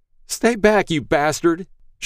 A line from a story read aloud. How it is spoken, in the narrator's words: She screamed